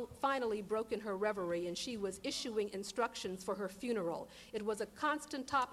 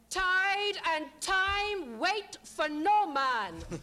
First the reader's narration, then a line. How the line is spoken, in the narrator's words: bellow, like a Jamaican drill sergeant